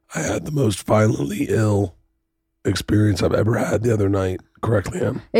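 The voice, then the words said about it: Hoarse, weak, strained voice. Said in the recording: “I've lost my voice from throwing up”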